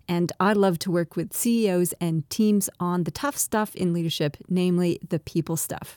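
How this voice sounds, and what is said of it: Twangy Canadian-Australian accent. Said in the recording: “I'm a Canadian-Australian, hence my funny, twangy accent”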